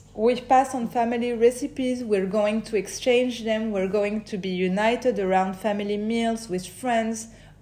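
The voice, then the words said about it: Strong French accent in English. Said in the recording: “Je sais que j'ai un gros accent.”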